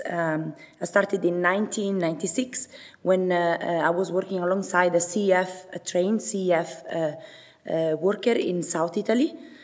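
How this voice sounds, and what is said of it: Italian accent, voice hoarse from cold. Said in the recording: “Italian accent ... my voice, because I got a cold”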